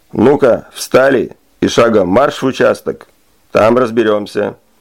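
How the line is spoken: Menacing bark, sergeant. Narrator (Russian): грозно рявкнул старший по званию сержант

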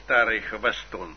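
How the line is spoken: Muttering. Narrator (Russian): пробормотал он

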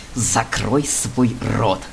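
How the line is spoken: Hiss in the ear. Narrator (Russian): прошипел Грейвс ему на ухо

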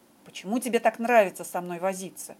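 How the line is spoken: Irritated questioning. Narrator (Russian): раздраженно выспрашивал Шерлок

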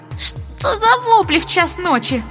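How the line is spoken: Creaky voice. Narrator (Russian): проскрипела

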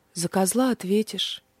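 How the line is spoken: Soft remark. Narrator (Russian): мягко заметил Индрик

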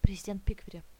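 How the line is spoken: Whisper. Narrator (Russian): прошептал Грейвс

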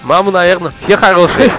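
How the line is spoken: Laughing. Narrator (Russian): засмеялся Владимир

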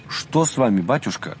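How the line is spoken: Frightened exclamation in unison. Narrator (Russian): В один голос испуганно воскликнули мы с отцом Рафаилом

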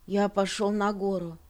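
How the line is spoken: Muffled, flat voice. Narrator (Russian): глухо сказал он

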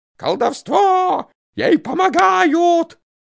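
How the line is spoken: Terrible scream. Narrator (Russian): матушка закричит страшным голосом

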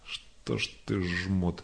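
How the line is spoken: Low voice. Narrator (Russian): заговорил вполголоса

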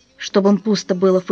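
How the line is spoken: Snorting. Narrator (Russian): фыркнул отец

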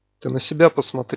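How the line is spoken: Grumbled. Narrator (Russian): буркнул кто-то

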